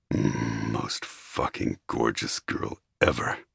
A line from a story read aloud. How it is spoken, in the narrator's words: he groaned